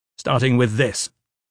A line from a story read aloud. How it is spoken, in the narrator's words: Gavin snapped